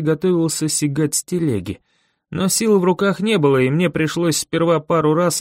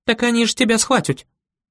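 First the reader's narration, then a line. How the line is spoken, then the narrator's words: Near squeal. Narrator (Russian): почти взвизгнула она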